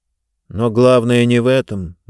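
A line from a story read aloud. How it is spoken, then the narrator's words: Gloomy. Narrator (Russian): мрачно сказал он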